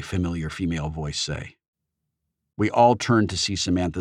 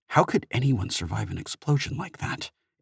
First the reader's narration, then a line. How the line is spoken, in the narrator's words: H muttered